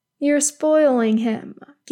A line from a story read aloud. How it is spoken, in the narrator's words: Gil-galad says again, though his tone is fond